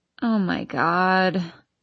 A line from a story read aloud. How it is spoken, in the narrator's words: I sigh